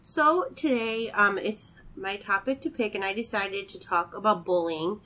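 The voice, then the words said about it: Nasal, congested voice. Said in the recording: “I'm a little sick ... I sound like a nasal congested pig over here”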